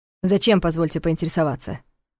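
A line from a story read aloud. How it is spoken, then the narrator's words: Irritated. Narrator (Russian): раздраженно уточнил Варнес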